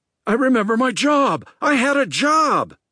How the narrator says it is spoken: Rick cried again

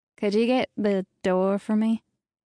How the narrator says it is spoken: faltered

